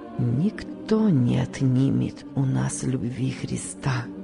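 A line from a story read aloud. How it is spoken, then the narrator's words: Barely audible voice. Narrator (Russian): выговорил он едва слышным голосом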